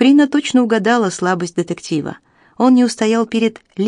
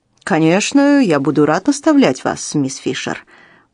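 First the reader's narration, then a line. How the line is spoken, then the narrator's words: Purring. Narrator (Russian): промурлыкал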